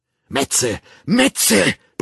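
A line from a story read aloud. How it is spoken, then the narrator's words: Roaring with each blow. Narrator (German): brüllte er mit jedem Hieb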